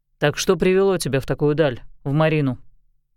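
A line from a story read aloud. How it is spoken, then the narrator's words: Deep sigh, beginning. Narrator (Russian): Кьель глубоко вздохнул и начал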